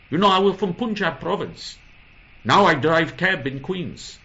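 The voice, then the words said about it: Put-on Indian accent. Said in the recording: “your legendary version of the Indian accent ... I don't know if I could do the Indian accent.”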